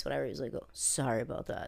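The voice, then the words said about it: Quotes someone in deep voice. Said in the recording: “He had this like deep voice”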